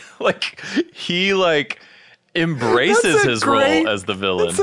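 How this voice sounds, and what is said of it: Usual voice. Nothing is said of it.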